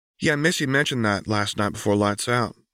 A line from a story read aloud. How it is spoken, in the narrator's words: replied Tallulah